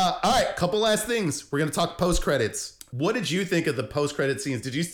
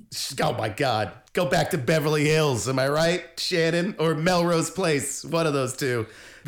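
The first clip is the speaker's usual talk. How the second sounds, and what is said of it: Angry put-on New Jersey accent. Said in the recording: “me angrily typing in the comment section, by the way, with a New Jersey accent”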